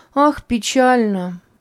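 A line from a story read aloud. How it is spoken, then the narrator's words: Sighing. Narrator (Russian): вздохнула Верушка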